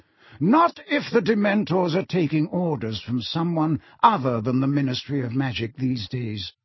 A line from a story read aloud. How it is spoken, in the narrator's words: said Dumbledore calmly